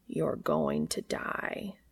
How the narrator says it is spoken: Cass says, his voice thoughtful and slow

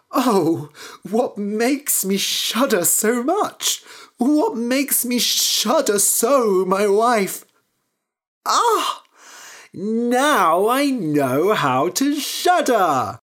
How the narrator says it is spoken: Anders woke up and cried

